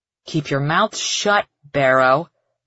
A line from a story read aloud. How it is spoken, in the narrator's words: Clover growls